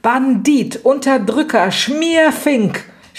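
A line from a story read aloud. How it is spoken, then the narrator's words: Shrill scream while being beaten. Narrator (German): schrie Lydia, von Raffaela gezaust und von Lepo zerdroschen, dass es weithin den Gang und das Haus durchgellte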